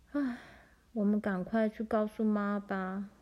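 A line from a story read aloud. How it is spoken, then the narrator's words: Long sigh. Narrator (Chinese): 玲玲长长的叹了一口气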